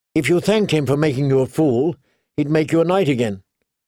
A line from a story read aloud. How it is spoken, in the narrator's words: Sansa said sharply